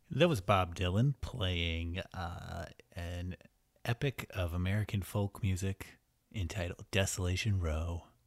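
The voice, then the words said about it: Smooth public radio announcer voice. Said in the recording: “I like the way you used your NPR voice for that.”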